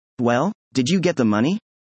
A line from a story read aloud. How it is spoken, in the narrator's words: JJ asked